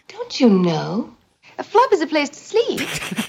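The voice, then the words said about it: English accent like Joan Collins. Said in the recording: “with her accent? ... she's like from ... England. ... Joan Collins ... accent?”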